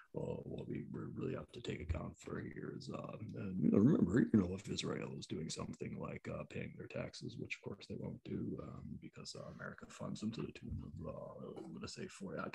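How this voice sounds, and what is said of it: Boring monotone impression of another person. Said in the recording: “my wonderful Noam Chomsky impression? It's really boring, isn't it?”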